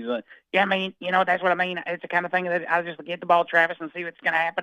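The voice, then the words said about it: Gravelly Muppet-like voice, Southern accent. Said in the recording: “he sounds like Kermit the Frog ... that frog in the throat kind of thing, the bubble ... there's more Fozzie Bear in there than Kermit the Frog ... You combine the two, add a little Texas Southern accent”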